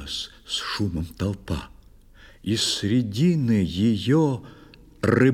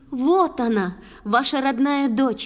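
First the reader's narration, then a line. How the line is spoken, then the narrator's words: Shouted. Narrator (Russian): закричала Ундина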